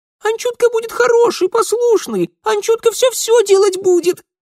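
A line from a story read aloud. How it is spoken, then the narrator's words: Happy rapid muffled chatter. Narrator (Russian): радостно затараторил из мешка домовик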